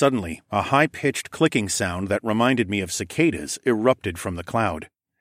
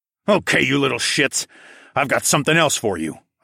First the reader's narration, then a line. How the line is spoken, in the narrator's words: I growled